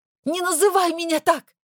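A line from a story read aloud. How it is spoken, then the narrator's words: Sharp shout. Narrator (Russian): выкрикнула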